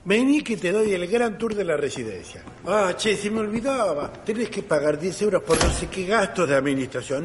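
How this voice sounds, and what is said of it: Argentine Spanish accent. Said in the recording (Spanish): “Eres, eres argentino, ¿verdad? ... el acento no se me va”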